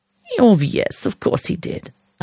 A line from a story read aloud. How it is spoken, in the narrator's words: Anna purred